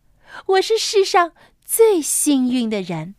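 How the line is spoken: Happy, laughing. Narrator (Chinese): 他开心的，他笑着说

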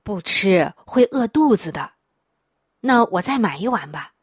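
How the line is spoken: Grandmother, sighing. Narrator (Chinese): 奶奶叹了一口气，说道

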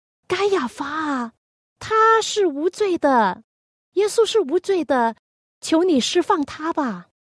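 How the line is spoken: Shouting. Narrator (Chinese): 犹大就喊道

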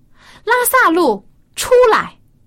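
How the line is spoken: Loud call. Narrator (Chinese): 对着墓穴大声呼喊说

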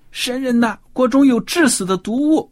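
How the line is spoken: Shouting in distress. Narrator (Chinese): 不舒服，大喊起来

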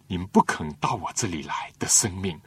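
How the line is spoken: Lamenting. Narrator (Chinese): 耶稣感叹当日的犹太人，就说

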